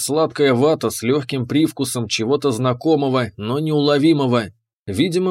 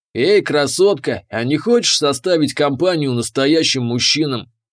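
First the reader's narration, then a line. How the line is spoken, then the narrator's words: Growling. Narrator (Russian): прорычал он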